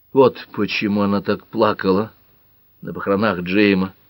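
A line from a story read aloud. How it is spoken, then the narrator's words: Quiet. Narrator (Russian): тихо проговорила Пэт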